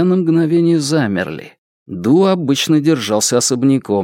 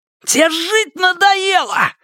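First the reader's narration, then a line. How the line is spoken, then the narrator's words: Yelling. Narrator (Russian): заорал он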